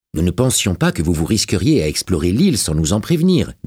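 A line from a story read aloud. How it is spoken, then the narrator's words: Plain. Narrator (French): dit-il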